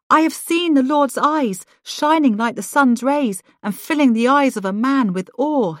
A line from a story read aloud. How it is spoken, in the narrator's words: he exclaimed